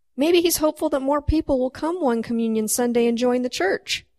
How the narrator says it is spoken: he said

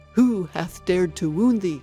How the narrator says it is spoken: cried the giant

